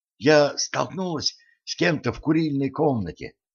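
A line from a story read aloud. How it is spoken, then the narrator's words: Hurried whisper. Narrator (Russian): торопливо зашептала Женька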